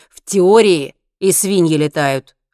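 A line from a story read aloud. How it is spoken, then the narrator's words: Snapping retort. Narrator (Russian): огрызнулся Генри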